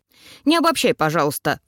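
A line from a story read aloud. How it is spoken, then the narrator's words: Dismissive snort. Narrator (Russian): фыркнула она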